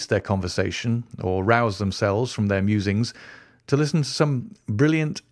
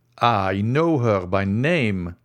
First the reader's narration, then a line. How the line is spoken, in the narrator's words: exclaimed Albert